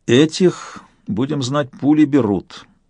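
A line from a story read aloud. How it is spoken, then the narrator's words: Said through teeth. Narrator (Russian): процедил Сварог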